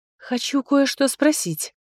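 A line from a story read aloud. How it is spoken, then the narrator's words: Quiet speech. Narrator (Russian): тихо произнесла я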